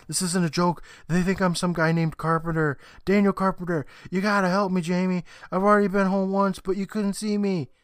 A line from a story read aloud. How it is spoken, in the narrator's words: Chris pleads more, saying